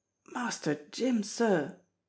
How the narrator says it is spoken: he gasped

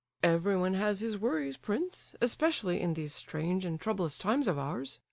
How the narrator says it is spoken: Lebedev replied dryly, and with the air of a man disappointed of his reasonable expectations

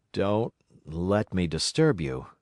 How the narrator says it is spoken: he said, with a certain faltering articulation

